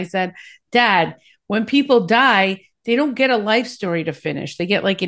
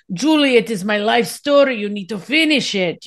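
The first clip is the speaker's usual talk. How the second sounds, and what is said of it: Imitating her father's accent. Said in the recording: “I got to do the accent.”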